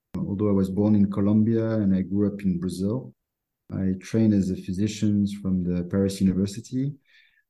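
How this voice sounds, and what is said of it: French accent. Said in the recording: “I'm French, as you can probably tell by my accent.”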